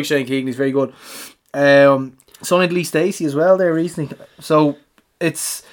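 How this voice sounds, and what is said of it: Usual voice. Nothing is said of it.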